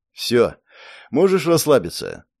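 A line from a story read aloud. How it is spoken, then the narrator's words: Tired. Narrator (Russian): устало произнес я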